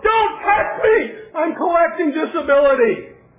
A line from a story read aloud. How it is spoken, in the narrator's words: Democrats yelled